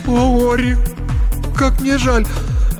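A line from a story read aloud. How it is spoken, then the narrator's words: Sobbing. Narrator (Russian): зарыдала вместе с ним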